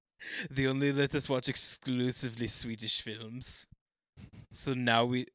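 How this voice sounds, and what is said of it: Put-on Nordic accent, Werner Herzog-like. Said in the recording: “Why do you have those accents? ... They put us in a Nordic school ... I sound like Werner Herzog a bit.”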